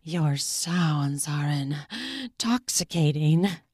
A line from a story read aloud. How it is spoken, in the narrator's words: I muttered between pants